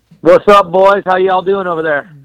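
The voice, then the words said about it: Put-on Southern twang. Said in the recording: “I threw in the y'all because I wanted to make sure I fit with everybody on the show ... I got my uh, my my twang talk”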